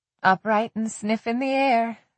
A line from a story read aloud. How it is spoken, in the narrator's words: Darcy murmured